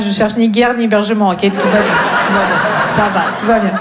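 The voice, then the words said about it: Slight sing-song Russian accent in French. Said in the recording (French): “j'ai un petit accent, mais il est très mignon, très chantant ... Non, je viens de Russie.”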